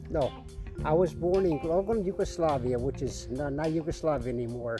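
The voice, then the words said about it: Slight accent, sounds New York-like. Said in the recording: “your ears are not deceiving you if you detect a bit of an accent. Now, I thought you was from New York.”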